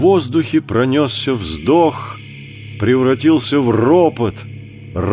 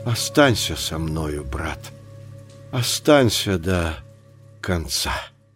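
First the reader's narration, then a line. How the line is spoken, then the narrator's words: Whispered. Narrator (Russian): шепнул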